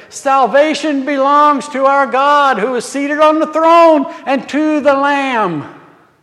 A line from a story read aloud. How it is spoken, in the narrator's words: called out in a loud voice, saying